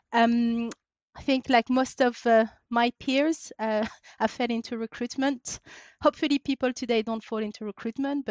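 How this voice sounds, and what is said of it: French accent. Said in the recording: “You'll hear from my accent. I was born and raised in France.”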